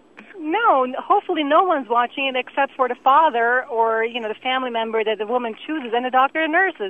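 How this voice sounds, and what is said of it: Slight Germanic-sounding accent. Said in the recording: “You got something German going on there ... it's some Germanic thing. It's Swiss ... there's a slight accent that the lady has”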